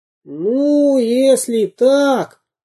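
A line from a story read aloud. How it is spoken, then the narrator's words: Pompous squeak. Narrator (Russian): важно пропищал Карандашкин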